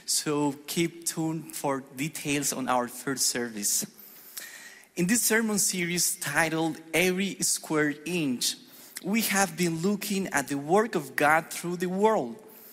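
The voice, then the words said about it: Spanish-accented English. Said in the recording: “as you may tell from my accent, I'm the pastor for the Spanish congregation”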